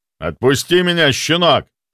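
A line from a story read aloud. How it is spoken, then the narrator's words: Roaring. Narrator (Russian): Взревел он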